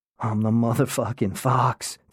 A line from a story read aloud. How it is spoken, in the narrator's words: Takumi whispered, both to himself and to me